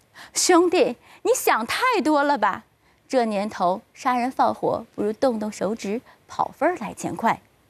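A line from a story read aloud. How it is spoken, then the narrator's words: Laughing heartily. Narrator (Chinese): 对方哈哈大笑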